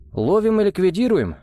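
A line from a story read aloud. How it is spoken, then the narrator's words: Snorting. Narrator (Russian): хмыкнул Арам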